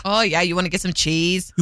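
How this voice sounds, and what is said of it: Imitated Wisconsin accent. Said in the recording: “I can't do the accent very well, but it was bad... The accent... Wisconsin... That's what it sounded like.”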